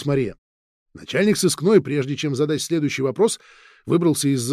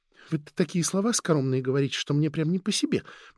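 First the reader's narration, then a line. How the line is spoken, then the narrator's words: Quiet. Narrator (Russian): проговорила она тихо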